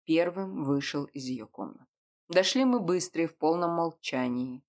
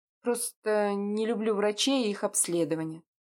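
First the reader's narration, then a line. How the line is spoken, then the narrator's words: Young woman through gritted teeth. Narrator (Russian): сквозь зубы произнесла девушка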